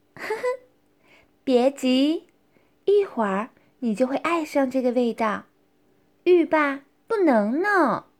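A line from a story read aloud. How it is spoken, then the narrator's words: Laughing. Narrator (Chinese): 莹莹笑道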